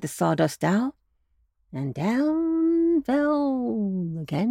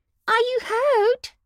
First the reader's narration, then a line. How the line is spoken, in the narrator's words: asked the sawdust doll anxiously, looking with sympathy